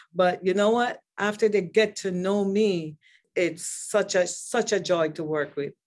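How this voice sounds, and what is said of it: Strong foreign accent. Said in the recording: “She have this accent that, oh, I don't understand.”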